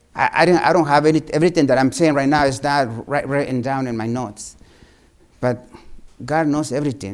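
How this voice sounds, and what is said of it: Thick non-native accent in English. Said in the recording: “my English thick accent”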